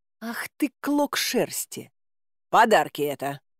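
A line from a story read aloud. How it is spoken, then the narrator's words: Quick retort. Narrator (Russian): нашлась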